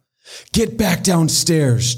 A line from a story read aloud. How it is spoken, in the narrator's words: Jennifer yelled at her